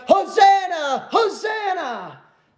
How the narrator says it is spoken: they're shouting out

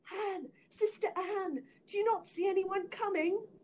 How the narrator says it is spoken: answered his wife, and then she cried

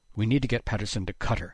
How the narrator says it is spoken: decided tightly

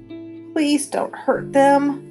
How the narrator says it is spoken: I begged

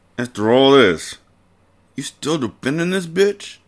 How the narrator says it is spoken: Monroe said through gritted teeth

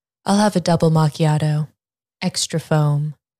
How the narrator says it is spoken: Julia replied

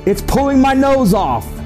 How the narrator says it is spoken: the man's jaws and he yelled

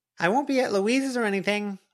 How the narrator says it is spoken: Snowdrop called out

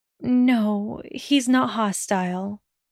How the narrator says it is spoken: Hermione murmured distantly

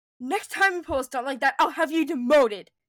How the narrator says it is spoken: Leia said sharply

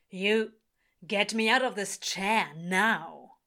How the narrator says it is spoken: he snarls, struggling against the bonds

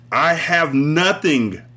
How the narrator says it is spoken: I yelled to him

